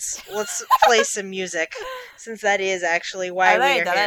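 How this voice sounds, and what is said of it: Usual voice. Nothing is said of it.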